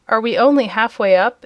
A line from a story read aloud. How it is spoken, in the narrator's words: inquired the boy in a discouraged tone